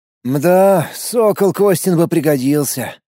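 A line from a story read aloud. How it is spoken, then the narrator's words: Sighing. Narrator (Russian): вздохнул Шизоид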